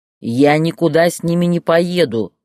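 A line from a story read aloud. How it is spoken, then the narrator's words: Roaring. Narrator (Russian): взревел Боря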